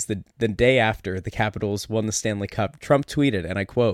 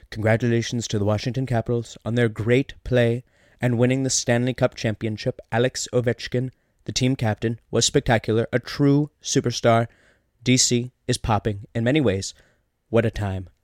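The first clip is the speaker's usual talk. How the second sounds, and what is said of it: Imitates another person's voice. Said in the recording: “you have done a Donald Trump impersonation”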